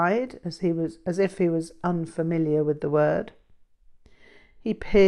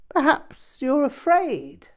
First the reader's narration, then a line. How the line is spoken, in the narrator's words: he chuckled